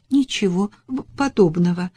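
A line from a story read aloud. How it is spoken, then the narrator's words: Stammering. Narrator (Russian): запинаясь, ответила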